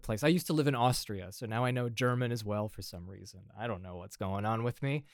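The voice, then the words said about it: American Midwestern accent. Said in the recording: “my accent is not European whatsoever. But you know, I'm from Indiana”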